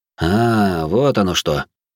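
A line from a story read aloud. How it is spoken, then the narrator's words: Thoughtful. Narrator (Russian): задумчиво ответил я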